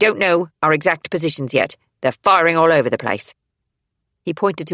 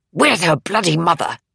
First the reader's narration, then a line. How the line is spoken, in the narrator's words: Warren hissed